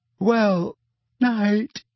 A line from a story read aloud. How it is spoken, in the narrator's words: said Hermione, yawning widely